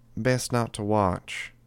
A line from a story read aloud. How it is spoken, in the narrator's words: Revel said, her voice gentle